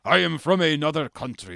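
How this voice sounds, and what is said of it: Mock Russian accent. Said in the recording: “I'm turning him Russian for some reason, but you pretend it's Eastern European.”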